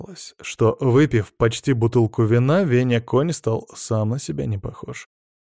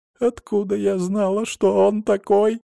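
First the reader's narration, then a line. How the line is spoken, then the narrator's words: Sobbing. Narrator (Russian): рыдала Варя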